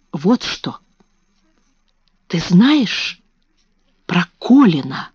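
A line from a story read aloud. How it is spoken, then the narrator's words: Whisper. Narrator (Russian): шепнула она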